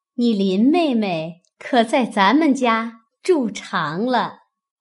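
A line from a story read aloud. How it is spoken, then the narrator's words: Laughing. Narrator (Chinese): 凤姐向宝玉笑道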